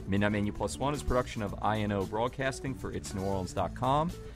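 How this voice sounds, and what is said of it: Flat monotone reading. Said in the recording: “my monotone delivery of our long exit script”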